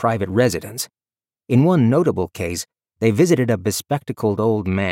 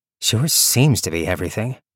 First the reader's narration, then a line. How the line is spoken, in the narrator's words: Viv groaned